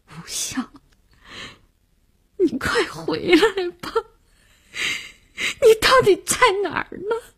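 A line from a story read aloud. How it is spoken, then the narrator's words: Crying. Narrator (Chinese): 他哭着说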